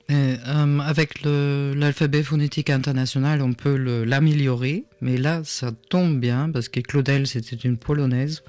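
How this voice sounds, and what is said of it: Slight foreign accent in French. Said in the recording (French): “avec le petit reste d'accent qui reste. Oui, l'accent restera toujours.”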